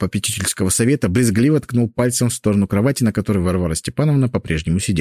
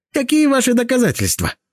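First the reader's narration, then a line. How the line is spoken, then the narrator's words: Shrieked. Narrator (Russian): взвизгнул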